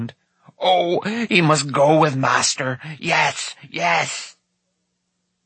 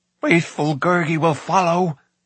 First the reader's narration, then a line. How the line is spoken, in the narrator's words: pleaded Gurgi